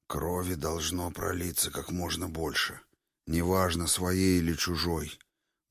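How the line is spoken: Muffled. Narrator (Russian): глухо продолжал Крас

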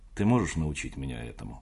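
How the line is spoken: Plain. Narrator (Russian): спросил я

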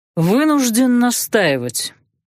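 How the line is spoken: Bored voice. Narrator (Russian): скучным голосом начал Крестовский

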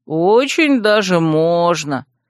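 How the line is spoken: Dreamy drawl. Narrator (Russian): мечтательно протянул Вемут

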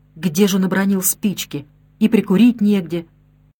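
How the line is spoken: Plain question. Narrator (Russian): спросил Морена

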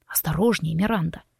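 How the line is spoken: Hoarse rasp. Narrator (Russian): прохрипел Форест

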